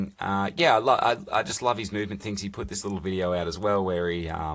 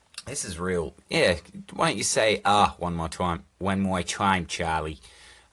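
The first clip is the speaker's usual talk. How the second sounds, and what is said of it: Put-on 1940s New York accent. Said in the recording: “some weird 1940s New York accent”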